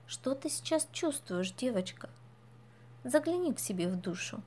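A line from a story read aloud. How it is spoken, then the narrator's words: Fairy's gentle question. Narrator (Russian): фея сказок ласково спросила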